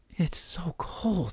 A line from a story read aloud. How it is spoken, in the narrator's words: she said quietly